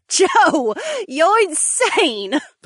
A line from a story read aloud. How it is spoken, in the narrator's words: the blonde snorted as her shoulders shook with laughter